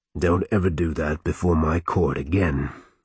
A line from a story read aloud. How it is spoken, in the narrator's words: Euchre growled